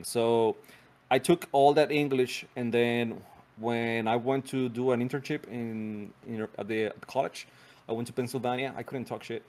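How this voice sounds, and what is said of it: Non-native English accent. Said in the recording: “I have an accent now. It was worse. It was way worse back then.”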